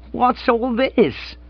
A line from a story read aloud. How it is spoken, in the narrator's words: quavered